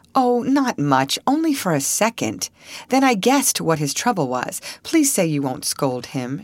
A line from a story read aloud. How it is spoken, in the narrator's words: she pleaded